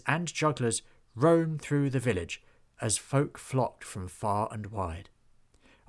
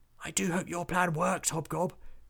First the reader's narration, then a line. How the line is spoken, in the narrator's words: whispered Willie